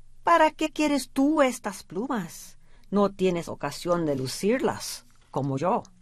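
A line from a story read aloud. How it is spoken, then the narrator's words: Plain. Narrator (Spanish): le dijo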